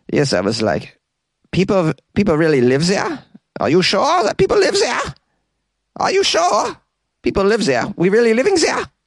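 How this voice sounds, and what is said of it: Put-on German accent. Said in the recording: “who doesn't look German, but I'm going to give him an accent anyways”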